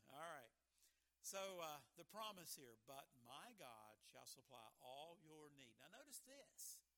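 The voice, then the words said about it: Southern West Virginia accent. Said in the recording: “my Southern West Virginia accent”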